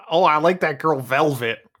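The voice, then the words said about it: Imitates another person's voice. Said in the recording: “that's my David Lynch impression ... It's pretty spot on.”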